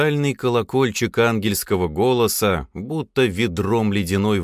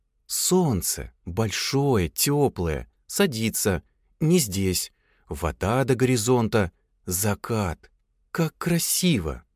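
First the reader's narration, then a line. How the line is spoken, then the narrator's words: Admiring whisper. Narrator (Russian): восхищенно шептала Мила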